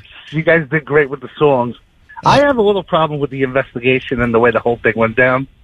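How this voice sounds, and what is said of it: New York accent. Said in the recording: “I hear the New York accent”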